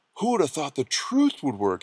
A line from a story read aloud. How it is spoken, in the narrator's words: he whispered